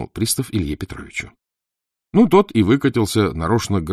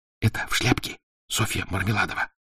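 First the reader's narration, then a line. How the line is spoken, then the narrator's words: Whispering in ear. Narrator (Russian): зашептал на ухо Заметов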